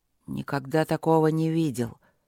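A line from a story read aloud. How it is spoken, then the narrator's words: Hoarse voice. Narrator (Russian): сипло проговорил Люк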